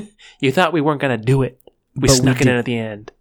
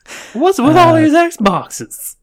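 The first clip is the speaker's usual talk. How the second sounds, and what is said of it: Imitates another person's voice, British-sounding. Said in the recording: “That's my best Jerry. ... impersonating Jerry Seinfeld ... my impersonation sounded like. He said it was British sounding.”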